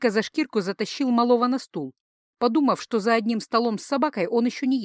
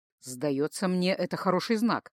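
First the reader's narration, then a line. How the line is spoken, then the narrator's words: Muttering. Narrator (Russian): пробормотал он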